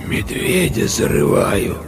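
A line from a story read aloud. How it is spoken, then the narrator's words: Hoarse girl's voice. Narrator (Russian): ответила девочка таким хриплым голосом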